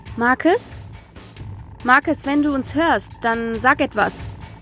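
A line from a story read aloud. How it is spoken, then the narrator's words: Urgent call. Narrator (German): rief nun Melissa, die im Gegensatz zu Mandy aus ihrer Trance erwacht war und die Situation realisierte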